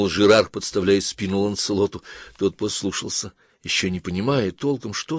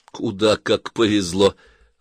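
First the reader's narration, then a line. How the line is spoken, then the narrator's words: Laughing. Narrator (Russian): Ланселот даже рассмеялся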